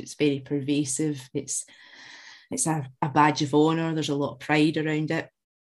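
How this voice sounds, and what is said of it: Glaswegian Scottish accent. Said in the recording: “as you can tell from the accent, I was born in Glasgow, raised in West Central Scotland”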